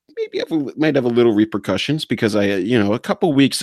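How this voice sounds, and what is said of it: Usual voice. Nothing is said of it.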